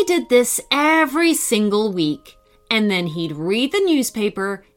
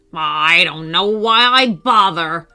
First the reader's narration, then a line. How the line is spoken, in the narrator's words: he would grumble